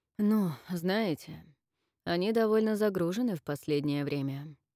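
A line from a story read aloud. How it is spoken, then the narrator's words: Tired reply. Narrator (Russian): устало ответил спецэксперт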